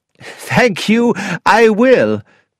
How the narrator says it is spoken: laughed Dr

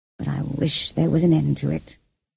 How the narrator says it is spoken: he murmured to himself

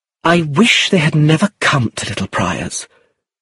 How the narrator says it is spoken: Sandra exclaimed bitterly

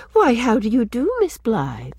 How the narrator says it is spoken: she said sweetly

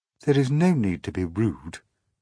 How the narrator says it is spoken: she said coldly

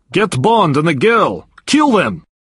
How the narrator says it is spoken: shouting

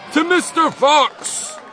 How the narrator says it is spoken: all shouted

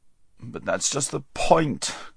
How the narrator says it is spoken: groaned Bree

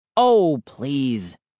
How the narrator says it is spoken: Dad groaned

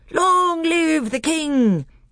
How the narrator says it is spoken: they all cried

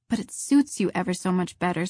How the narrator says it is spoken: said Diana

